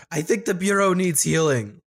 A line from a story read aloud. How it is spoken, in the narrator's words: I want to shout